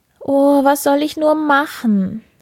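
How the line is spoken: Sobbing speech. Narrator (German): sagte sie und schluchzte

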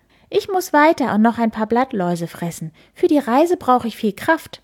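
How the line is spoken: Chirping. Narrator (German): zwitschert er

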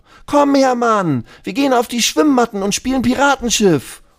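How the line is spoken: Called out. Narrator (German): ruft Lulu

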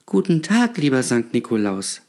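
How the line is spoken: Stammering child. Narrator (German): stammelte das Kind

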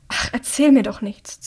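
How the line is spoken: Hissing. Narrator (German): zischt Hamish

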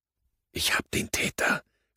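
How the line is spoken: Two voices whispering together. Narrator (German): flüsterten wir beide gleichzeitig

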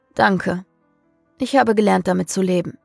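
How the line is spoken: Exhausted sigh. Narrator (German): seufzte Samael erschöpft

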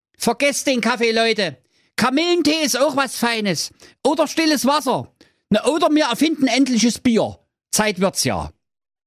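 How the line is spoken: Calling out. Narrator (German): rief der Thorsten

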